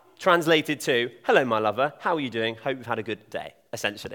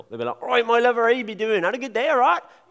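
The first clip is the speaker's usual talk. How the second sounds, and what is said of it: Broad Devon accent imitation. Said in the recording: “a really broad accent. I'm from Devon ... down there, it's mental.”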